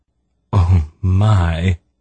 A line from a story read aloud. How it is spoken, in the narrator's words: she sighed